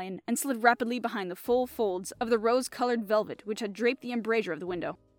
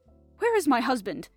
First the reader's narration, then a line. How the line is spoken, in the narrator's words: she cried with a quick, frightened glance